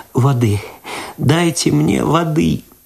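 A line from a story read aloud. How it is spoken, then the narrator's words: Sobbing moan. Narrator (Russian): В голос зарыдала Люда, простонала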